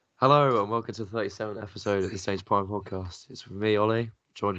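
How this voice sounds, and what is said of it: Croaky voice. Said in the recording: “I'm still a bit ill, so my voice is still a bit croaky”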